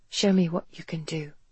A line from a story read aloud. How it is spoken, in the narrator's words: she whispered